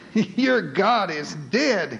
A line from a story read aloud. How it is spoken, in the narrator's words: he wailed